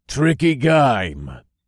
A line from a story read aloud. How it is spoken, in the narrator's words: Jax grunted